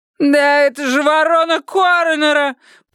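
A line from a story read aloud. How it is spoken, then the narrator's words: Woman's shrill shriek. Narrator (Russian): пронзительно завизжала дама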